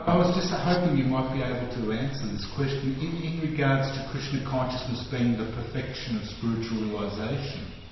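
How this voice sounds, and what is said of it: Australian accent. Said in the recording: “this Australian's accent's a little different”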